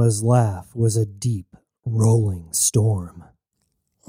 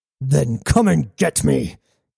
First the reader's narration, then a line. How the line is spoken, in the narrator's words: roared